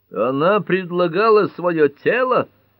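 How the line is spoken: Harsh bark. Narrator (Russian): рявкнул судья Ньюболт

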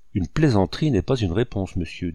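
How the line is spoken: Curt, crisp young man. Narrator (French): dit sèchement et nettement le jeune homme

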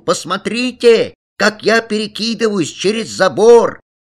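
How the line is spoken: Loud street-wide shout. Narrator (Russian): Алян крикнул ему на всю улицу

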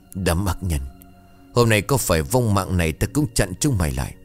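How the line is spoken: Whisper after deep breath. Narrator (Vietnamese): Tôi hít một hơi thật sâu, thì thầm

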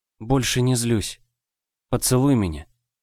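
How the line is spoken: Whisper. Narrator (Russian): прошептала

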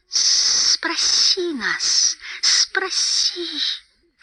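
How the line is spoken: Hissing. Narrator (Russian): шипел Голлум

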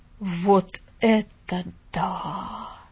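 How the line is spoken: Amazed exhale. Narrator (Russian): выдохнул мистер Пендлтон

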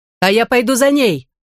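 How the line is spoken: Shouted. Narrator (Russian): выкрикнула Мэрихью

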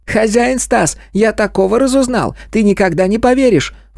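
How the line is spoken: Animal's squeaky voice. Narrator (Russian): пропищал хорек

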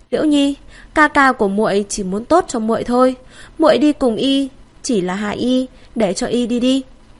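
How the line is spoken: Sighing. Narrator (Vietnamese): Tô Chiếu thở dài

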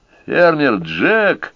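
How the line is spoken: Joyful exclamation. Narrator (Russian): радостно воскликнул Рой

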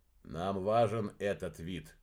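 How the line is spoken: Quiet. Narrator (Russian): негромко произнес Уран

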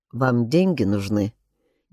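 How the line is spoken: Indistinct mumble. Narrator (Russian): невнятно пробормотал он

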